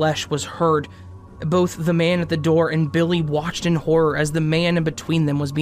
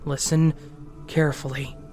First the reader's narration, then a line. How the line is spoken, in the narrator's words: whispered